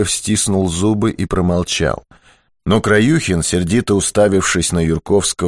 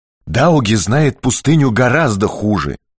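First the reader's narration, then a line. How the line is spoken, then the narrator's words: Angry interjection. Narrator (Russian): сердито вмешался Григорий Яганович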